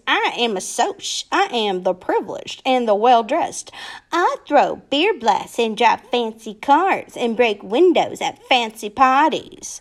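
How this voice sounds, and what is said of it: Snobbish voice. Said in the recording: “in a snobbish voice.”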